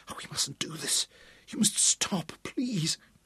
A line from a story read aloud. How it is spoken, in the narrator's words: she gasped